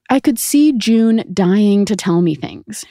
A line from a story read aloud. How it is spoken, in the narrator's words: she said